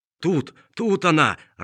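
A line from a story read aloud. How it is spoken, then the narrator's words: Old man's joyful shout. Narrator (Russian): радостно закричал старик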